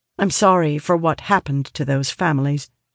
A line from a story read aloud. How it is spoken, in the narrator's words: she said